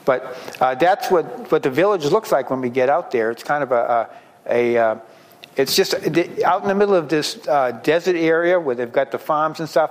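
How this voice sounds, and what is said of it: Hoarse, softer voice. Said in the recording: “I'm losing my voice already. ... I'll try to talk a little softer.”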